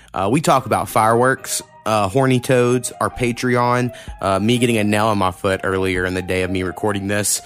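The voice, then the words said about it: Worn-out, strained voice. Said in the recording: “my voice is shot on this episode. I was up for a long time, had a long day... my voice sucks”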